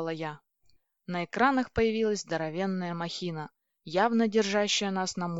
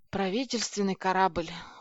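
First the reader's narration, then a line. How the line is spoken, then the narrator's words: Dejected voice. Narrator (Russian): упавшим голосом произнес Федя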